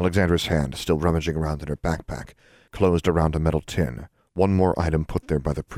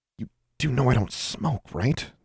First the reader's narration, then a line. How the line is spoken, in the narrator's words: Alexandra whispered